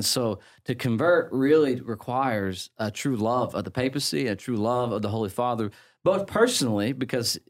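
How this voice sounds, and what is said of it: English accent. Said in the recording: “you sound very English”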